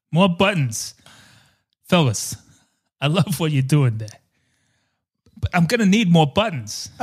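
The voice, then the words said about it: Speaks in a put-on accent. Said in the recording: “I don't know what accent I'm doing right now ... my impressions”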